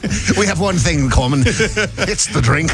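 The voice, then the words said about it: Put-on Scottish accent. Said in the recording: “Proud of you for doing the Scottish accent there.”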